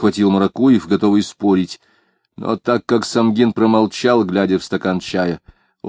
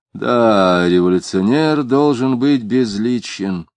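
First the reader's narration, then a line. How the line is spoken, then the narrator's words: Gloomy, failed irony. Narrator (Russian): он хотел сказать иронически, а вышло мрачно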